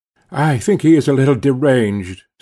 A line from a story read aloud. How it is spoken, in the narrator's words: said I, sadly